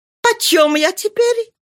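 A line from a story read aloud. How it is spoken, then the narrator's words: Laughing question. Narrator (Russian): она спросила, смеясь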